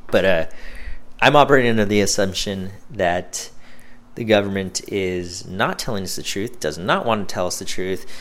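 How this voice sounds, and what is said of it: Tired, worn-out voice. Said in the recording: “It's the end of the day. My voice is kind of over.”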